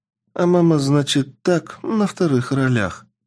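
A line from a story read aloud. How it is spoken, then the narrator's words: Sad. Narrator (Russian): грустно сказала Карина, мать Имме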